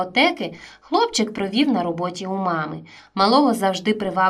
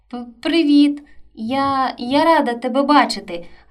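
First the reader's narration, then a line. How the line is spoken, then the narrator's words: Joyful shy stammering babble. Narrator (Ukrainian): радісно пробелькотіла, ледь затинаючись та невміло приховуючи свою сором'язливість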